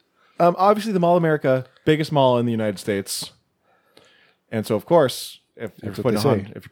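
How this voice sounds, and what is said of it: Usual voice. Nothing is said of it.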